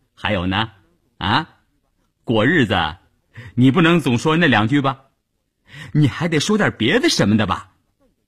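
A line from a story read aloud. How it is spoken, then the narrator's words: Laughing. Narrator (Chinese): 谭志林还是笑着说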